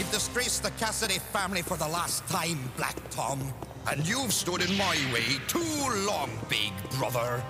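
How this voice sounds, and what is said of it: Exaggerated stereotypical Irish accent. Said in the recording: “It's a pretty brutal accent, and it's the kind of Irish accent you'd hear on an SNL sketch.”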